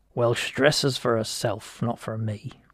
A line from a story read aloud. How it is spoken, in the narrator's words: muttered Judd